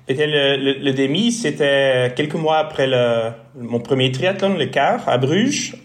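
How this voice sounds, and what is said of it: Slight Flemish accent in French. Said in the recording (French): “un petit accent, une petite note dans son français, puisque tu es flamand. Donc tu es un Belge néerlandophone.”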